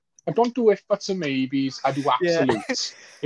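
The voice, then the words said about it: Put-on Liverpool accent. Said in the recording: “Give me your best Liverpool accent right now.”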